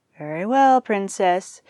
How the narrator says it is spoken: said Caduceus, sighing theatrically

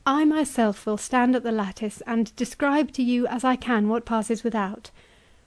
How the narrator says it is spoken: she firmly added

